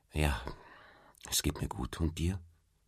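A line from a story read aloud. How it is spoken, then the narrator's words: Quiet answer. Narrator (German): antwortete sie leise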